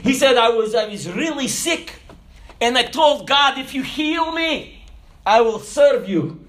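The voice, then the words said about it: Speaks with a noticeable foreign accent. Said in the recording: “if you can't understand my accent”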